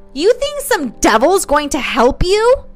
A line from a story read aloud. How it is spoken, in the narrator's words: Nancy roared